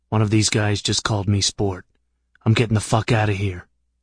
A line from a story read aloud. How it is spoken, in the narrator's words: Katz said in a whisper